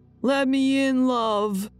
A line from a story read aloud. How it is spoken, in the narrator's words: yelling